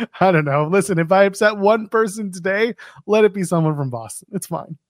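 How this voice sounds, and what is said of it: Usual voice. Nothing is said of it.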